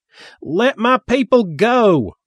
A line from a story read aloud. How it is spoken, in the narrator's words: Reverend Sparkle Jones yelled